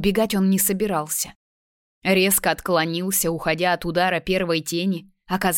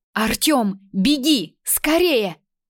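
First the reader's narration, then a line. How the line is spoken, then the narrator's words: Shouting. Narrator (Russian): Майя закричала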